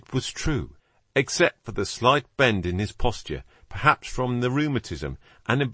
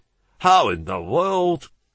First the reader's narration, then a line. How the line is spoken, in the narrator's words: Holmes chuckled